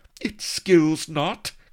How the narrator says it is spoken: cried Vanity, stamping her foot impatiently

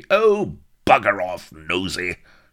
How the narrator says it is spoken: shouted Bilbo, his temper exploding

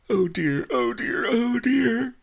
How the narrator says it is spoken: wailed

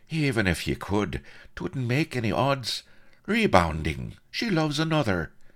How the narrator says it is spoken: murmured the colonel gently

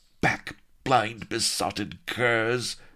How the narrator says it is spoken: snarled Sheba

